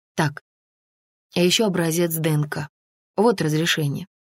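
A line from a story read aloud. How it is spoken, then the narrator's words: Plain. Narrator (Russian): сказала Анна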